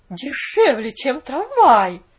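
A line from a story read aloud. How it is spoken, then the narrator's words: Bewildered exclamation. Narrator (Russian): воскликнула миссис Керри в недоумении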